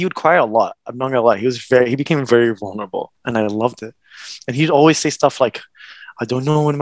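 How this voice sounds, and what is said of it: Usual voice. Nothing is said of it.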